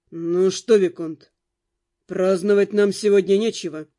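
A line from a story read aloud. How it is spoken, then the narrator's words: Gloomy. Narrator (Russian): мрачно сказал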